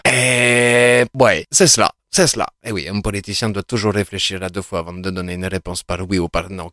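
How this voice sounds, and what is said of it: Put-on foreign accent. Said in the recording (French): “si je garde cet accent ... je vais arrêter avec cet accent parce que ça devient lourd”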